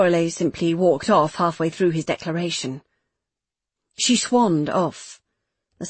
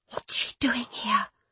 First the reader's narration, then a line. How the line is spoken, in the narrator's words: Meg whispered